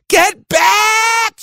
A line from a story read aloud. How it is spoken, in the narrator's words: screamed